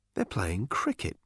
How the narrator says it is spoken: muttered Arthur

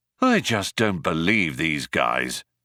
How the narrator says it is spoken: muttered Ford

